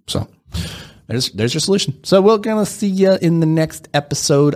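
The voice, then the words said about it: Unconvincing put-on accent. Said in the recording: “I'm working on my accent right now. It's not very good. ... let me know just how bad the accent is”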